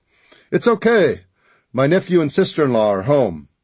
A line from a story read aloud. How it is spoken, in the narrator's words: He shouted